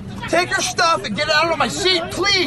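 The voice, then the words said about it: Angry yelling. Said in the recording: “I need you to stop yelling ... I'm asking you to stop yelling”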